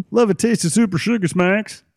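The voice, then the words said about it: Imitated frog character voice. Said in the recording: “That's my impression of a frog.”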